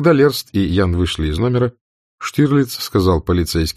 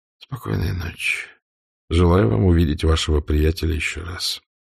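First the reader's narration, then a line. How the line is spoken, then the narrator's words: Quiet, after heavy sigh. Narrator (Russian): тяжело вздохнув, тихо сказал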